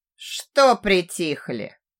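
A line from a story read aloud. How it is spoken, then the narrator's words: Sarcastic question. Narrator (Russian): язвительно спросил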